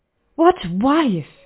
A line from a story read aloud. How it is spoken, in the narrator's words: He gasped